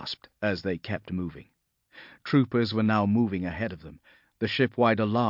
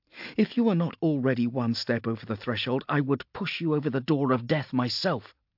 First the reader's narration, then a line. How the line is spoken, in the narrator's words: snapped Viola